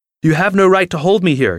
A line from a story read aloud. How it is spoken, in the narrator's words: shouted the man in the other room again